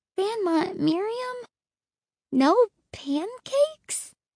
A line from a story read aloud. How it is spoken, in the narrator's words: I asked meekly